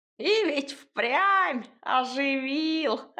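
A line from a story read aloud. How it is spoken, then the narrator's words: Short laugh. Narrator (Russian): хохотнула избушка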